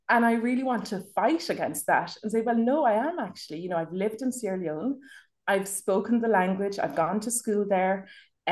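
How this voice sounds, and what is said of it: Irish accent. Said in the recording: “my accent is Irish”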